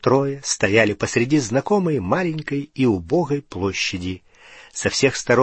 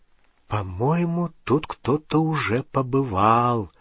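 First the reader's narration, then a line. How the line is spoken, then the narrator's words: Whisper. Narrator (Russian): прошептала Гермиона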